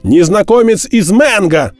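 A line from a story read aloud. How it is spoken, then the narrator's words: Shouted reply. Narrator (Russian): крикнул в ответ Д'Артаньян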